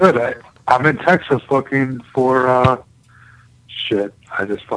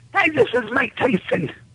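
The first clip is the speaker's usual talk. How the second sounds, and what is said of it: Bad Mike Tyson impression. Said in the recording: “Worst impression ever, I know.”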